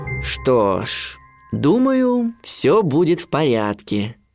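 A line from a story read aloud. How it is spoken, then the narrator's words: Father's drawl. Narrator (Russian): протянул отец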